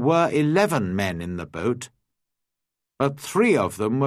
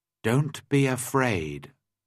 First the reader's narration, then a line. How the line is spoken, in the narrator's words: I said